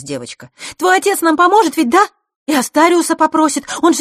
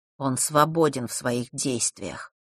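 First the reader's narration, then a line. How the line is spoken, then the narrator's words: Muffled, hollow voice. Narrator (Russian): глухо сказал Ник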